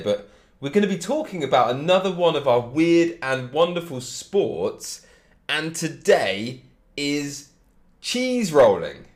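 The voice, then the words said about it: Congested voice from a cold. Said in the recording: “I've got a cold, so if I sound a little bit different, you know why. I'm a bit sick”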